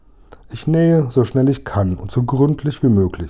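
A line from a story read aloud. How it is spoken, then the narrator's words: Plain. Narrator (German): sagte sie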